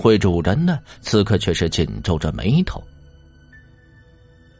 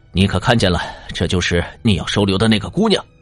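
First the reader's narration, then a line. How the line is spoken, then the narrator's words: Furious. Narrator (Chinese): 月圆青筋怒目冲着宴会的主人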